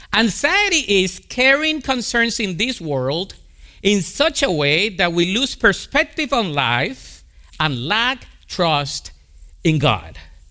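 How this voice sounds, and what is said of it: Colombian-accented English. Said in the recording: “my Colombian accent”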